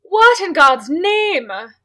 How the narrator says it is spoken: the lone female exclaimed

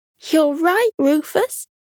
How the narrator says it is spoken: Patty cried happily

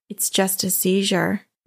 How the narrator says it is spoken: way too calmly said

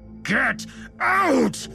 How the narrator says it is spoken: Lewis yelled

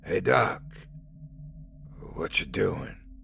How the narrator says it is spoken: His voice was hoarse as he croaked out each word

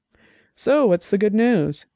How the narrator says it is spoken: she asked, her voice light

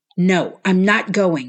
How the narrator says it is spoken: shouted

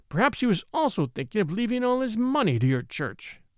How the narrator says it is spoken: he cried, with a blasting sneer

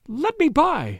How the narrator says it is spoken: shrieked

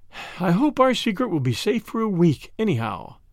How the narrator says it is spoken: said Madame, with a sigh and a smile

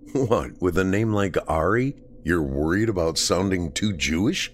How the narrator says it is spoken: Danny laughed

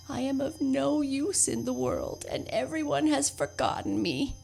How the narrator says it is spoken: he moaned

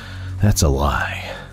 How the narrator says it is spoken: wheezed

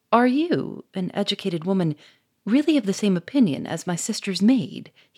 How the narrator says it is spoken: he exclaimed

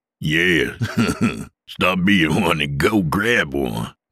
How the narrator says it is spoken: Dale laughed

